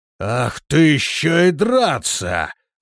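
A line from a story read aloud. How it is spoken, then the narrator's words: Roaring demon. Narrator (Russian): взревел демон-союзник и с ревом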